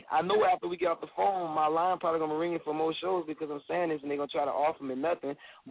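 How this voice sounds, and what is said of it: Southern American accent. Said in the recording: “I hear that accent. ... it comes out of me ... they from the bottom of the map when they, you know, when they get on the phone”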